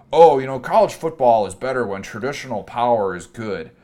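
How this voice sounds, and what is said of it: Put-on accent, stuck-up fan voice. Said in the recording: “What was that accent? ... Stuck-up college football fan.”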